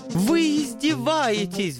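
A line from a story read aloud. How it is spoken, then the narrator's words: Wounded howl. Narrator (Russian): взвыл ангел, видимо, его задело за живое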